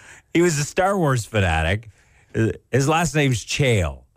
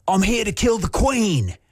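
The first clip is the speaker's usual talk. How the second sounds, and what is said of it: Bad put-on English accent. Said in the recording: “Was that your English accent? ... Yeah, it was bad.”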